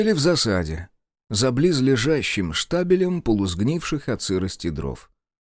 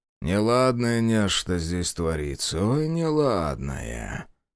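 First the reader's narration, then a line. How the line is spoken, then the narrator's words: Muttering. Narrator (Russian): пробормотал Демьян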